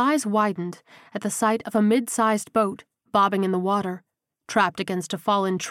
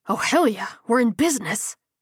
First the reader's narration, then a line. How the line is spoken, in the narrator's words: he hissed excitedly